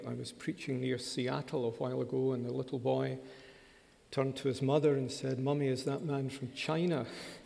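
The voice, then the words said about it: Educated Glasgow Scottish accent. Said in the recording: “just in case you're wondering about the accent, it's called Educated Glasgow.”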